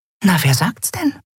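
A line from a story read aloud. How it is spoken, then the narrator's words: Whisper. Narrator (German): flüsterte Nelen ihrer Freundin zu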